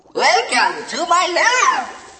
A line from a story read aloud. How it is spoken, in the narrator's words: he said in a tinny recorded voice